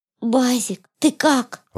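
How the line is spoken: Sweet gentle voice. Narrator (Russian): ласковым голоском поинтересовалась Люда

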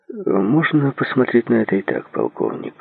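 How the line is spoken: Plain. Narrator (Russian): ответил Джей

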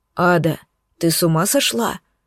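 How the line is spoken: Quiet growl. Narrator (Russian): Тихо рыкнул Алкион мне в спину

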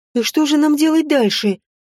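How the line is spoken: Anxious hoot. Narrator (Russian): взволнованно ухнула Соня

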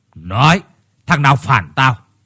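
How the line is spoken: Harsh, gritted voice. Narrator (Vietnamese): gằn giọng

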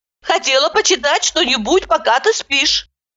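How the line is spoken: Flustered babbling. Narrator (Russian): залепетала я

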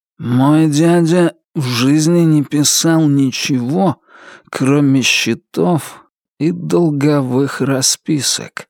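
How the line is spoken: Slow, sleepy voice. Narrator (Russian): сказал Туз все тем же медленным, сонным голосом

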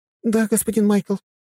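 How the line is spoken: Receptionist's squeak. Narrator (Russian): пропищала регистраторша

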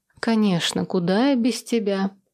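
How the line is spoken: Tired, offhand. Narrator (Russian): устало обронила я

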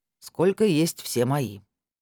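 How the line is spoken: Dry pronouncement. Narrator (Russian): сухо изрек Валера

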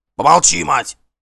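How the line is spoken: Fierce bark. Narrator (Russian): свирепо рявкнул Гримкель

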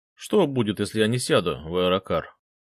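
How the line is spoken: Mocking repetition. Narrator (Russian): Насмешливо повторил

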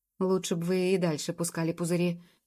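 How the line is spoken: Crushed, dejected mumble. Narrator (Russian): пробурчал тот, окончательно подавленный пылом Джуб

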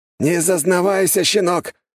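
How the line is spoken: Shout. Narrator (Russian): скрикнул

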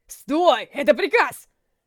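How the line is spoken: Shout. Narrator (Russian): закричал полицейский

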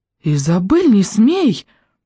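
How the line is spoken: Exclaiming. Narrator (Russian): воскликнула Виана

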